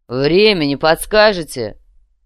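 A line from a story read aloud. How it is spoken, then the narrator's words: Booming bass voice. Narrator (Russian): Заданный гулким басом вопрос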